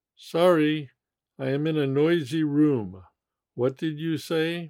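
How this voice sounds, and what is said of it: Usual voice. Nothing is said of it.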